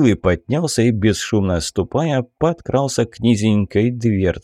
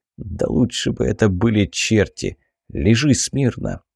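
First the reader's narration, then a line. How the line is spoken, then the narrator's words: Whisper. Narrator (Russian): шептал Биллый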